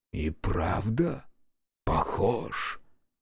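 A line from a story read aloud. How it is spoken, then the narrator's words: Whispered. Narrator (Russian): прошептал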